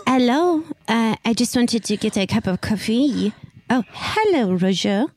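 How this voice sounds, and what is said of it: Fake French-American accent. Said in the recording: “speak in a French-American accent”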